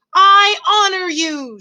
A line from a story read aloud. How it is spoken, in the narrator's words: shouted Despereaux